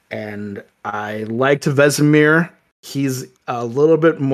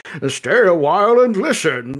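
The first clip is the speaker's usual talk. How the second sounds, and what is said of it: Imitates a game character's voice. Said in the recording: “he's a little more Deckard Cain, like ... like, kind of, you know, like, talking like that.”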